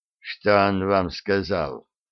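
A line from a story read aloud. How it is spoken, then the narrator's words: Quiet, hiding hesitation. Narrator (Russian): Фрезби отвернулся, чтобы скрыть свои колебания, и тихо спросил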